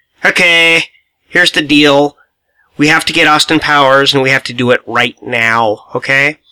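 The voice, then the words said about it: Dr. Evil character voice impression. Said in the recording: “that's my Dr. Evil ... I got to think of a good Dr. Evil here ... the impersonation”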